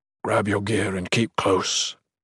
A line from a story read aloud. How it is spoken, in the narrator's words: Torbrandt whispered